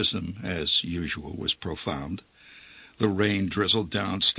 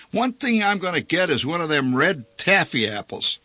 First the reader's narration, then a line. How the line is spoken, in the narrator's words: shouted